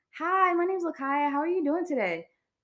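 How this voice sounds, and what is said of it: Chipper customer service phone voice. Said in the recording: “I had my customer service voice, and I used to work at a call center. I had a customer service voice ... I hate when you do that voice.”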